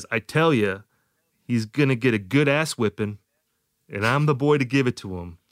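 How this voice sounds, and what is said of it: Slight John Wayne impression. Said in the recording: “I feel like I'm doing a slight John Wayne impression here. ... I'm imagining Axel talking like John Wayne.”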